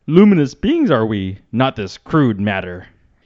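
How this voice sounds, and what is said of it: Yoda impression. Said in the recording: “do an impression of now... favorite Yoda line... I'm gonna do the voice”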